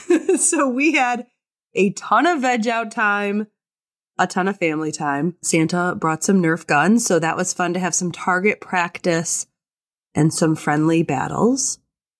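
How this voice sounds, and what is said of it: Sick, unwell-sounding voice. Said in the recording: “The ... were not healthy over break, in case you can't hear in my voice.”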